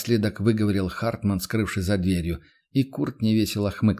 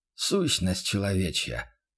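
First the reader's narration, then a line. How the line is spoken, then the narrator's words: Mentor's sigh. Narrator (Russian): вздохнул наставник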